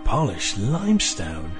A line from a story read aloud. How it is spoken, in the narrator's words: Ian breathed